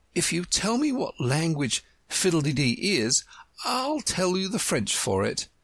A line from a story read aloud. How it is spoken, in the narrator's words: exclaimed triumphantly